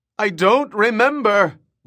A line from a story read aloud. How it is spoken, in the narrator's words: Waff 3 wailed